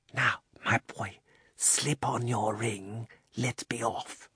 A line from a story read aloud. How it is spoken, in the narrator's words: the old man put his mouth so close to Diggory's ear that it tickled, and whispered